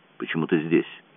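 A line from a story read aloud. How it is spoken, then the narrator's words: Mumbled. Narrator (Russian): пробормотал он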